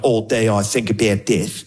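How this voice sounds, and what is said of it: Mock Australian accent. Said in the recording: “Australian accent's one of those accents that's funny every single time ... You sound funny.”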